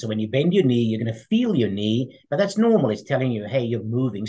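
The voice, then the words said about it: Speaks with a noticeable foreign accent. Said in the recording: “The guy with the funny accent”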